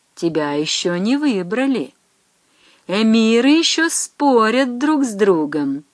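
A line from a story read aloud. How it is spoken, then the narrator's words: Gentle. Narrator (Russian): ласково говорит Тавлубий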